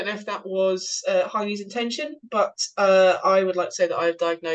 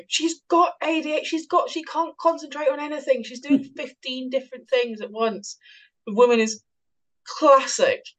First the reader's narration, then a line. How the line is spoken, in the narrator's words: sort of screaming